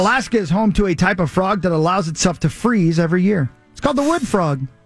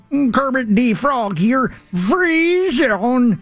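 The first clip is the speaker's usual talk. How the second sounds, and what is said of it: Kermit the Frog impression. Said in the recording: “your Kermit impression”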